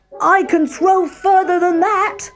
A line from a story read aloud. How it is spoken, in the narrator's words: cried the other boy